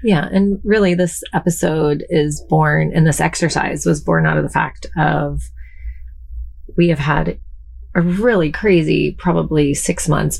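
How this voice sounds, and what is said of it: Slightly wonky, under-the-weather voice. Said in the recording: “My voice is a little wonky ... Jamie's been a little under the weather”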